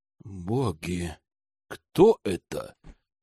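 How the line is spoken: Terrified gasp. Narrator (Russian): в ужасе выдохнул Бенедикт

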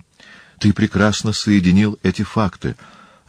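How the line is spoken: Exclamation. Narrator (Russian): воскликнул Деметрий

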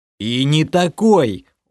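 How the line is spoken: Angry growl. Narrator (Russian): уже зло прорычал

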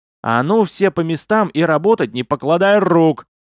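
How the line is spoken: Loud yell. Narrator (Russian): заорала Листи

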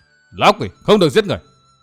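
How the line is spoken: Piercing scream. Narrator (Vietnamese): tiếng hét xé toạc bầu không gian

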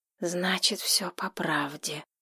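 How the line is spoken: Whisper. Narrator (Russian): шепнул Ник

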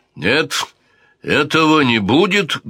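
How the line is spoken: Menacing exclamation. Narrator (Russian): грозно воскликнул Педро I

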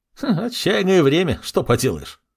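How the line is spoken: Chuckle, chubby man. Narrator (Russian): хохотнул подошедший толстячок

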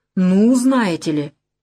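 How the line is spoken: Exclaiming. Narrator (Russian): совсем как Жмурова воскликнула Галина Викторовна

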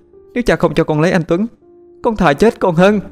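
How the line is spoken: Desperate shouting. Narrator (Vietnamese): Thủy Tiên hét lên

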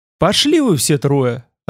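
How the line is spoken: Offended. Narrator (Russian): ответил обиженно

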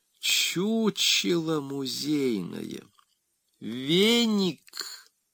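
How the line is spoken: Gentle address. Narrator (Russian): Мягко обратился Мимозов к старшему дружелюбу

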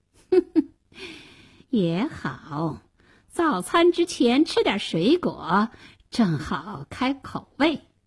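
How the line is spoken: Sneering. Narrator (Chinese): 大灰狼冷笑了一声说

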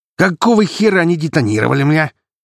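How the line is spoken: Sudden bark. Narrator (Russian): гаркнул тут же

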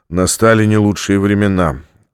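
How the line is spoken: Sighing. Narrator (Russian): вздохнул Стратмор

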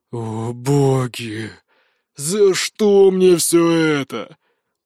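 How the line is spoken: Weary grumble. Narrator (Russian): устало проворчал Олк

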